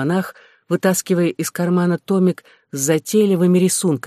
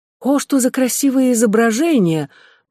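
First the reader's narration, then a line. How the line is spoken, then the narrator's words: Exclamation, grief briefly forgotten. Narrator (Russian): воскликнула мистрис Глендининг, забывая на минуту свое горе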